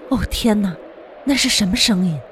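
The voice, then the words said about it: Quiet, frightened murmuring voice. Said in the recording (Chinese): “禁不住小声的念叨起来”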